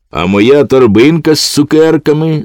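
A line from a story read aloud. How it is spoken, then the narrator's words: Shouting. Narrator (Ukrainian): закричав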